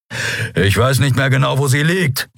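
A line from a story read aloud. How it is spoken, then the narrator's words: Growling. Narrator (German): knurrte er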